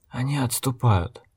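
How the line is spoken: Quiet, soulless, faintly satisfied. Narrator (Russian): негромко сказал Логерт, и в бездушном голосе некроманта Гизу послышались нотки удовлетворения

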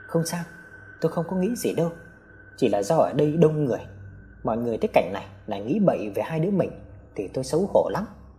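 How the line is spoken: Softly. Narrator (Vietnamese): Tâm khẽ nói

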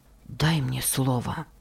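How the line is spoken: Agitated whisper. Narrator (Russian): прошептал он, а его сердце стучало

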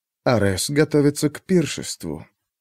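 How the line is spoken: Quiet mysterious stranger. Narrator (Russian): тихо промолвил таинственный незнакомец

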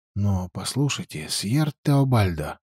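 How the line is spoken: Quiet speech. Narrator (Russian): тихо произнес Даниэль

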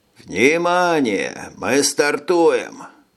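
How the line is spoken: Booming hoarse loudspeaker. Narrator (Russian): прогремело в охрипшем динамике

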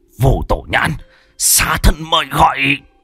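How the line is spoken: Hissing. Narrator (Vietnamese): Hắn rít lên

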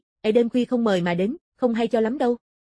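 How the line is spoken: Cold voice. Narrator (Vietnamese): lạnh lùng nói

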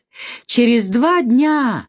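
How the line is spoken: Sighing reply. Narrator (Russian): отвечал он, вздохнув

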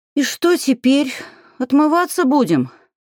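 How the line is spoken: Moaned. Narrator (Russian): простонала Алька

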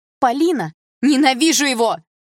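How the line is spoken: Shouting out. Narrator (Russian): выкрикнула я

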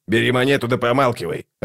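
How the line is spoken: Snapping back. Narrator (Russian): огрызнулся скрипач

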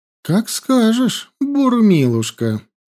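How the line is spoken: Through gritted teeth. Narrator (Russian): процедила Янди

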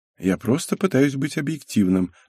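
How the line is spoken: Calm reply. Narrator (Russian): ответил спокойно Кенжи

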